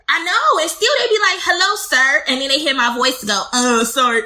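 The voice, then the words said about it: Squeaky voice. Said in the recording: “Leave my squeaky voice alone.”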